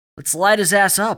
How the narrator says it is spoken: Alex shouted

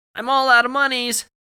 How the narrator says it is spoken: As a concession, she shouted

